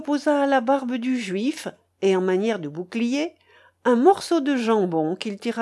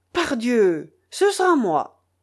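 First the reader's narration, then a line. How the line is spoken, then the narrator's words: Jester exclaiming defiantly. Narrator (French): le bouffon Wamba s'écria, répondant au défi du prince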